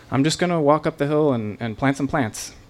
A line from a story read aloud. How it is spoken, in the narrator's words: hiding my fear, calmly said